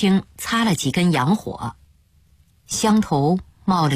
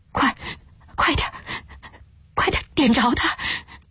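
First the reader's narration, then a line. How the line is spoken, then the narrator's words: Trembling hushed voice. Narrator (Chinese): 林偶初的声音也抖，嘈嘈切切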